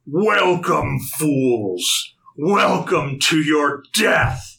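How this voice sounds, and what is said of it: Bellowing villain voice. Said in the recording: “in this bellowing just voice”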